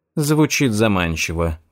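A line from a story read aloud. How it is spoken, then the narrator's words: Sighing. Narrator (Russian): вздохнула она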